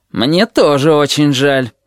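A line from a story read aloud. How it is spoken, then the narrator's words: Grumbled. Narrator (Russian): проворчал акула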